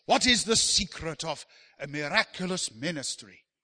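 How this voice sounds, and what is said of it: Quotes someone in a put-on accent. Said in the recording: “I'm not sure what accent that is”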